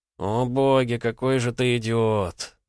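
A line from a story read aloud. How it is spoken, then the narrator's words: Drawled, then hysterical laughter. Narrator (Russian): протянул Вадим и истерично рассмеялся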